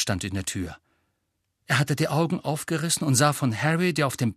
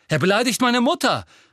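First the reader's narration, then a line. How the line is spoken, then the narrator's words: Shouting. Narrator (German): rief Seamus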